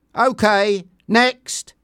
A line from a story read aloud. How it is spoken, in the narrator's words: shouted Sam